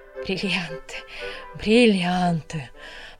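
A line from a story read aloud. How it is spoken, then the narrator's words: Muttered. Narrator (Russian): пробормотала Полина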